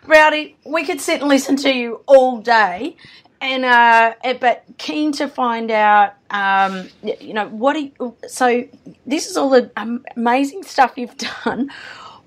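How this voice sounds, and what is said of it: Strained, failing voice. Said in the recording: “Excuse my voice today. It's going.”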